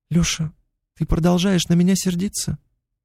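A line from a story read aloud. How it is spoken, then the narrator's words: Quiet question. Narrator (Russian): Негромко спросила она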